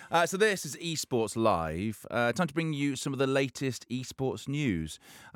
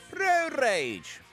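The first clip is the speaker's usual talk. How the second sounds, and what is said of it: Poor attempt at Welsh accent. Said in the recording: “I can do a Welsh accent. ... Obviously, I can't.”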